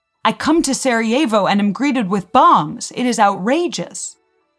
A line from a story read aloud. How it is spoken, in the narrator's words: the Archduke loudly interrupted him, saying